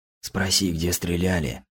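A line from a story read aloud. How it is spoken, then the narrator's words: Whisper in ear. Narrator (Russian): шепнул мне на ухо Кузнецов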